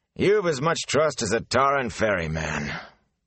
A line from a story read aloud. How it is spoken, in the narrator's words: Tam sighed